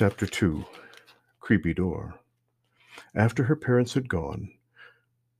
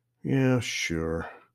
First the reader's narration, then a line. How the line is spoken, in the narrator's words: rather sullenly